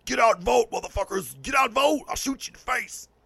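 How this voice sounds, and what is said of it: Poor Punisher character voice. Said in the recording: “That was my Punisher impersonation, and it sucked.”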